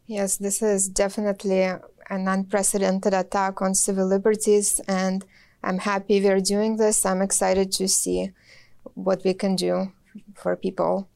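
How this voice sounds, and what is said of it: Slight Russian accent. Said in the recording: “our viewers can detect a bit of a Russian accent”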